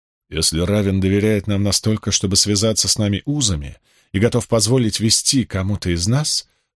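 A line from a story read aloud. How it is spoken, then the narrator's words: Melodic female voice. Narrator (Russian): произнесла тем же мелодичным голосом невидимая женщина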